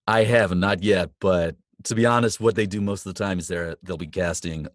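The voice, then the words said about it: Convincing put-on American accent. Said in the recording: “as you can tell, I've got a great U.S. accent by now”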